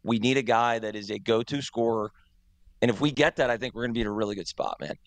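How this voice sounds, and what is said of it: Hoarse, strained voice. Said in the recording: “I'm already losing my voice. I was screaming ... Your voice just went in a second”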